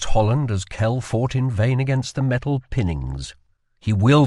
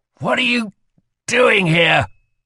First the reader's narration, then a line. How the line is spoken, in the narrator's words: asked Kell through gritted teeth